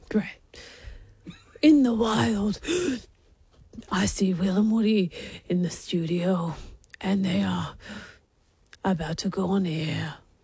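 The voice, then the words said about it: David Attenborough impression, breathy. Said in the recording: “your best David Attenborough impersonation ... Quite breathy.”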